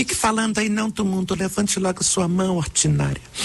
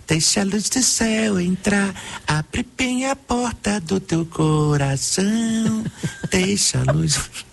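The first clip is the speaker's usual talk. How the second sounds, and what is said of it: Imitates another person's singing voice. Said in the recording (Portuguese): “a minha imitação favorita ... Porque ela é muito precisa ... É perfeita.”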